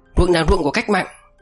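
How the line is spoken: Shout. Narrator (Vietnamese): Tám Trâm quát lên

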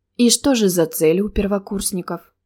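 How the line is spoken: Even, sincere voice. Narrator (Russian): ровным голосом, без всякого ехидства спросил архимаг

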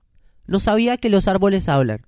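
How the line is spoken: Plain. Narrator (Spanish): le dijo

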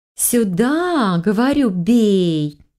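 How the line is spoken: Melodious girl's demand. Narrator (Russian): мелодичным голоском требовала какая-то девушка

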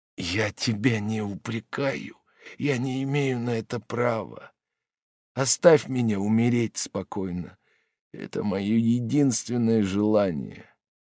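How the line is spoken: Weak interrupting voice. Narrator (Russian): прервал ее Жак слабым голосом

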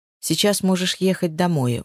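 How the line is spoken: Sudden firm calm tone. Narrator (Russian): вдруг сказал Рома твердым, спокойным тоном

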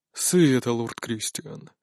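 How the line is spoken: Quiet menacing reply. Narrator (Russian): отвечает негромко, но угрожающе

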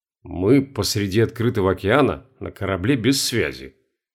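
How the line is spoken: Muttered. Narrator (Russian): пробормотал Сергей

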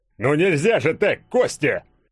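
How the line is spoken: Warrior roaring. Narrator (Russian): взревел богатырь

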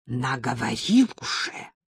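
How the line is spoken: Hissing whisper. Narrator (Russian): сказала она свистящим шепотом

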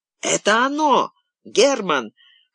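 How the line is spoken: Guard shouted. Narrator (Russian): крикнул охранник

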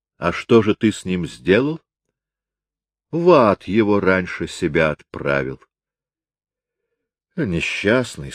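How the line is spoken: Plain. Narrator (Russian): сказал Макморлан

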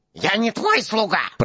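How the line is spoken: Squeaky male voice. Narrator (Russian): пропищал он

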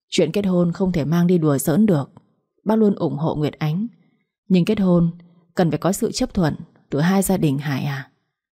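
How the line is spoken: Sighing. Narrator (Vietnamese): Bà Hồng thở dài rồi nói

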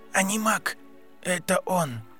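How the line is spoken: Whisper. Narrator (Russian): прошептали губы Гарри

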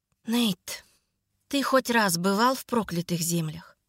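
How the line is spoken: Weary question. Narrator (Russian): Устало поинтересовалась я

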